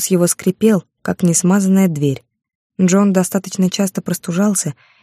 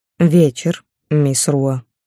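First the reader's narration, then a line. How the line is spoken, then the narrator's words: Cold, emphatic. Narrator (Russian): подчеркнул холодно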